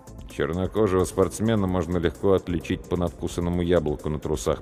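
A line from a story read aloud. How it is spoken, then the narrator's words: Muttered. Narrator (Russian): пробормотал я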